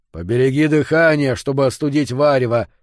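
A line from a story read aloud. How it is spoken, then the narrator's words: Grumbling. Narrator (Russian): проворчал Йо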